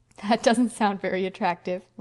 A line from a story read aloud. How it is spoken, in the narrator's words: laughed Anne